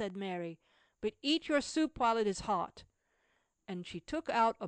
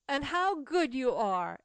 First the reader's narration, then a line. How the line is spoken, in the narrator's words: exclaimed Cecil joyfully